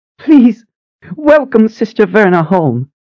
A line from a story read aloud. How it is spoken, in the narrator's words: Sister Phoebe said, her voice trembling with excitement